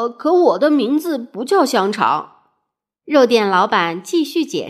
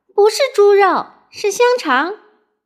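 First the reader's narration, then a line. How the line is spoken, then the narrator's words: Loud. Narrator (Chinese): 糊涂小姐大声说道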